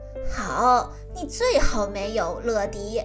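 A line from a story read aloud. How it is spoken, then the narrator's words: Laughing. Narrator (Chinese): 包警长笑着说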